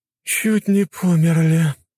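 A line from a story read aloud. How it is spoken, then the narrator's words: Moaning. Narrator (Russian): простонала черная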